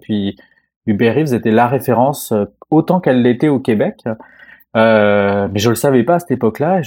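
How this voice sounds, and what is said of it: French accent. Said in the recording (French): “vous l'entendez peut-être à mon accent là, j'ai un accent euh, français quand même, donc je viens de la France”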